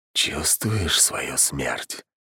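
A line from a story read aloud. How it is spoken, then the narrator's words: Whisper. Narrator (Russian): прошептал он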